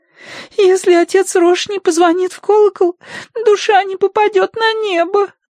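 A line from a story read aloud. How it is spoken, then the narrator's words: Sobbing. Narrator (Russian): разрыдалась она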